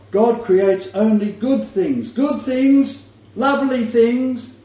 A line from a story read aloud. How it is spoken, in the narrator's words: and he yelled out from up the top